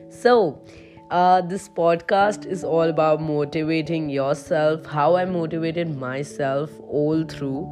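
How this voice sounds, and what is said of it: Heavy-sounding voice. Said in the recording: “My voice might sound a little heavy in this, in comparison to in generic of my voice”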